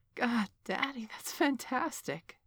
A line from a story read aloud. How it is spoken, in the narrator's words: she wailed